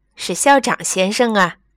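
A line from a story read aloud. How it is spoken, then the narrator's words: Laughing reply. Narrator (Chinese): 那个人已经笑着答道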